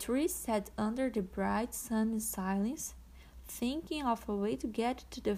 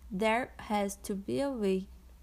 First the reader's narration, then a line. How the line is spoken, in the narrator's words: said Sam